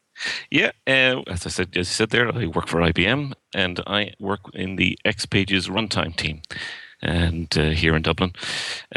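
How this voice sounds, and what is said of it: Distinctive regional accent. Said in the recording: “I don't think there's any confusion over the accents. ... the accent gives you away”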